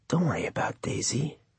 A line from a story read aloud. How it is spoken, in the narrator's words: the monkey whispered inside his head